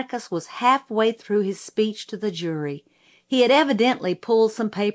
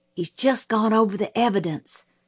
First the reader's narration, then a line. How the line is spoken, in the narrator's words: Jim whispered